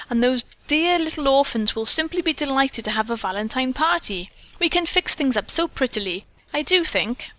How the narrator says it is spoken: Doris, taking the hint, exclaimed

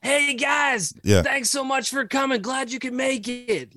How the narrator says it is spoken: yelled up, said

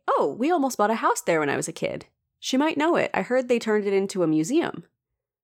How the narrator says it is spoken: brightly say

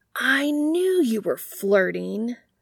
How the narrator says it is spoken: Sam exclaims

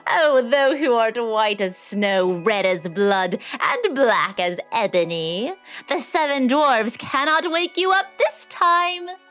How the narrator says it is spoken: The queen, laughing loudly, cried out

